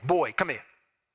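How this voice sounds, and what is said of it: Stern dad voice. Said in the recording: “that's the dad voice.”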